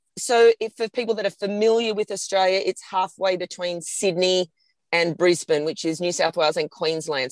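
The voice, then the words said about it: Australian accent. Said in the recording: “on the east coast of New South Wales in Australia. hence the accent.”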